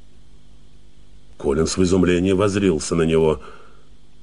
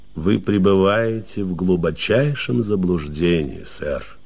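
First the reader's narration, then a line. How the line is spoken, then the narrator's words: Calm, dignified. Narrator (Russian): спокойно и с достоинством произнес Флайн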